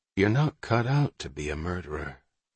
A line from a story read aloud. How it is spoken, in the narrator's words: Breckenridge said gently